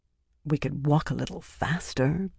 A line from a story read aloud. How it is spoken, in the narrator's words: muttered, not quite far enough under her breath